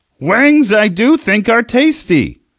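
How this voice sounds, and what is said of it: Bad Yoda impression. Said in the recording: “That's a bad impression, but it is Talk Like Yoda Day.”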